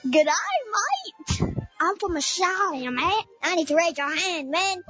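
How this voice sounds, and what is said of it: Put-on Australian accent. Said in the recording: “Can anybody do an Australian accent?”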